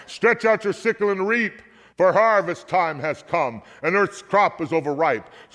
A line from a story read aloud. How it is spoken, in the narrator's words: another angel, and he shouted in a loud voice